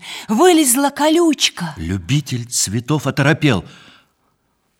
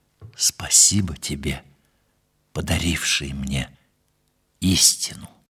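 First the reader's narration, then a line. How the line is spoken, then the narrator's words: Soft whisper. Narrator (Russian): Он тихо прошептал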